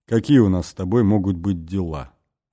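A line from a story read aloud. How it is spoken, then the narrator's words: Plain. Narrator (Russian): ответил Бастон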